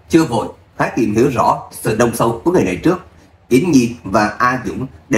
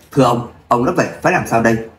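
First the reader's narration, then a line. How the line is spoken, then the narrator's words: Cold loud shout. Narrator (Vietnamese): Người đàn ông trung niên lạnh lùng quát lớn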